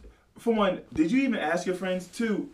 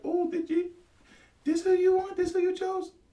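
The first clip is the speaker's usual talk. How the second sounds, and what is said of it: High-pitched imitation of a woman. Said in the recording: “Is that your girl voice? ... No, that's how high she got.”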